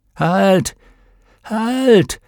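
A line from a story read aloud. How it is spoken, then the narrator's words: Called out. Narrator (German): rief Pater Gomez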